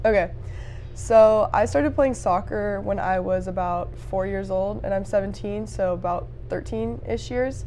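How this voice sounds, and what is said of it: Hoarse voice, losing it. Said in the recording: “I'm losing my voice... my voice did that this morning too”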